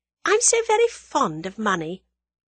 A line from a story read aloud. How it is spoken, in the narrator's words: explained Tuppence still sweetly